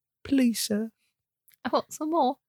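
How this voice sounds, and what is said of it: Brief put-on British accent. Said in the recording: “she did a little bit of a British accent.”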